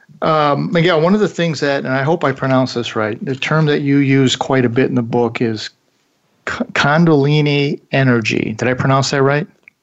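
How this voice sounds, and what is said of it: Slight American accent. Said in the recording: “you pronounced it right, just with a slight American accent”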